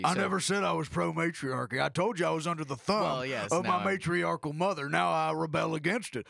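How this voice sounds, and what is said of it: Gruff masculine cowboy accent. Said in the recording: “you do have an accent ... a gruff masculine cowboy like yourself”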